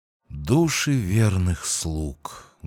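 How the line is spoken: Bitter whisper. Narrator (Russian): горько прошептал я

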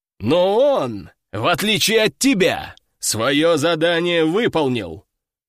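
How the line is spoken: Deep bass voice. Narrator (Russian): пробасил Собутыльев

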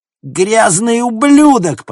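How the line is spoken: Woman screaming. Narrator (Russian): продолжала вопить женщина

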